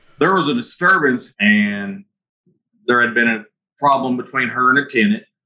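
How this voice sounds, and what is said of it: Southern Missouri accent. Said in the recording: “as you can tell from my accent, we're in Southern Missouri”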